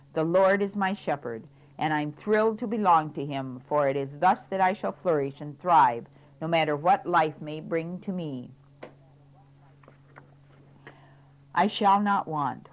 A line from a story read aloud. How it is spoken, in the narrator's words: with genuine gratitude and exaltation, I can exclaim proudly